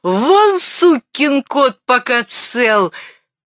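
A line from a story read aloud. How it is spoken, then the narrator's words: Hysterical shout. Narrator (Russian): истерично крикнул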